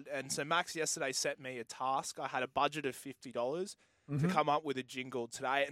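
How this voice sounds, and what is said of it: Tired, jaded-sounding voice. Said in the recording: “you could probably hear it in my voice. You go, I'm a bit tired. Like I said, I was up all night ... you sound jaded.”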